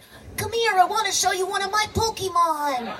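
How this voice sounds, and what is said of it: Imitates a cartoon little boy's voice. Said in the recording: “my Ash Ketchum impression. ... You know, the little boy from Pokemon?”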